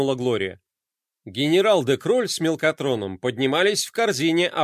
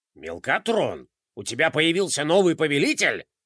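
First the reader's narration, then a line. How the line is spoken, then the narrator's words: Angry question. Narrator (Russian): сердито спросил генерал де Кроль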